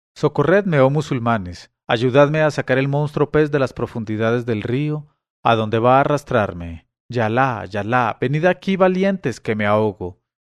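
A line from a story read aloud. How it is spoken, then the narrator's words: Fisherman shouting. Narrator (Spanish): el pescador, al verles, les gritó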